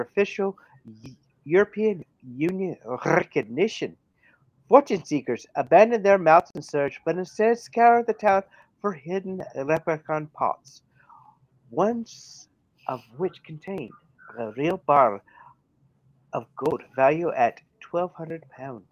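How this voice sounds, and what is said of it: Put-on Irish accent. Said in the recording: “we have gone back to the Irish accent.”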